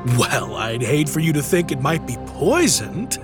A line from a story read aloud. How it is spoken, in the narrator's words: laughed Christian